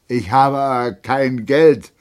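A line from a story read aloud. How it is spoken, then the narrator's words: Captain slurring drunkenly. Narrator (German): lallte der Hauptmann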